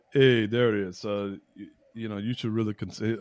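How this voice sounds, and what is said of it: Imitates a New Jersey-accented man. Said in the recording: “Am I doing a spot on impersonation of Sapio? Yeah. Like spot on. This he's like from like Jersey.”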